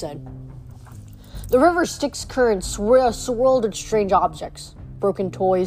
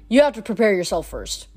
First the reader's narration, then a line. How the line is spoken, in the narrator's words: Nico said